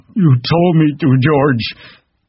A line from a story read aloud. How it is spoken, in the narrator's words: He said miserably